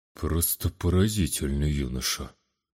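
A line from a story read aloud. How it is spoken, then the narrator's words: Admiring mutter. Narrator (Russian): почти восхищенно пробормотал наместник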